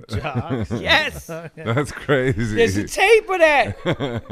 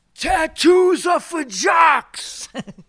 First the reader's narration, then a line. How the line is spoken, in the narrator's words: somebody yell out